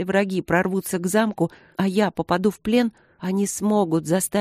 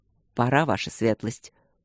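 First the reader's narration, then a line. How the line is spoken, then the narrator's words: Quiet call from doorway. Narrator (Russian): негромко позвал от двери капитан Осокин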